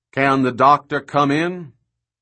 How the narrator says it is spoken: he calls in a hearty voice that almost booms

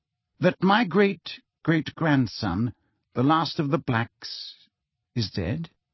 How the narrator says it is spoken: said Phineas Nigellus, slowly

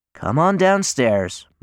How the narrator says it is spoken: my mother sighs

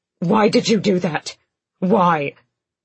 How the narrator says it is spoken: Lorcan snapped

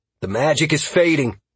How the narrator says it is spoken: Halcyon exclaimed

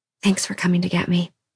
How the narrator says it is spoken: she whispered against his forehead

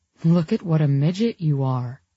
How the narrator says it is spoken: he said

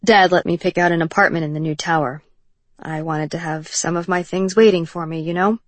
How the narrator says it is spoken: His voice was stiff and mechanical

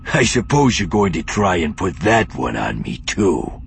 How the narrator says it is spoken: Ferrier growled

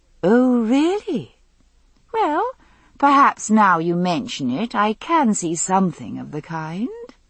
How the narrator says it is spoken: I answered sweetly

